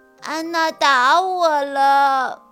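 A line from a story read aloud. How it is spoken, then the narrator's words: Crying. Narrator (Chinese): 小河哭着告诉老师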